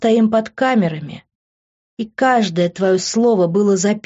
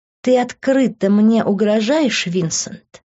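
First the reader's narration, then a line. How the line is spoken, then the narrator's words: Angry words through teeth. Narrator (Russian): Зло процедила я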